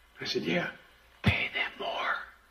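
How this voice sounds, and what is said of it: Whispering. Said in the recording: “he fucking whispers. He talks normal, but then he gets real close, and he whispers ... Why are you whispering”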